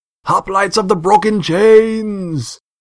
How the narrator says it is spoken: declared

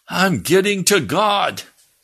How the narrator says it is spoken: Jim yelled out

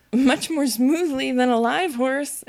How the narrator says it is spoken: Alice said with a little scream of laughter, in spite of all she could do to prevent it

